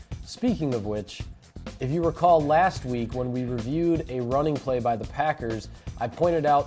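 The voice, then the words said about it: Sick, under-the-weather voice. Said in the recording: “I apologize for my voice. I'm a little bit under the weather this week”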